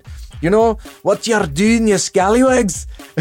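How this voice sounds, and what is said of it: Put-on Scottish accent. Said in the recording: “the Scottish accent”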